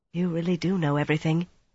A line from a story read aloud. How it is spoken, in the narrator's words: Mirella whispered